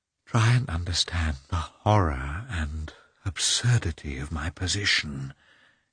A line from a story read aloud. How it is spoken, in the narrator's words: he continued in a despairing whisper